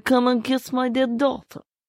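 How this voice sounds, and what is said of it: Put-on Russian accent. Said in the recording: “That was a very good Russian accent. ... It was such a good Russian accent. ... It was terrible.”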